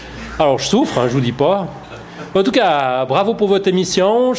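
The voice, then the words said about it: Strong local regional French accent. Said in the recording (French): “c'était un vrai accent du cru ... se moquer des accents”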